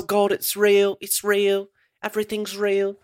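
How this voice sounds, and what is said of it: Imitates a character's voice. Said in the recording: “I just love doing that voice.”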